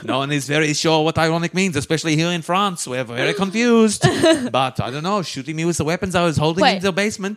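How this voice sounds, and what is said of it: Put-on German or Dutch accent. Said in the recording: “Is that a German accent? ... It's kind of morphing. I think it was maybe Dutch.”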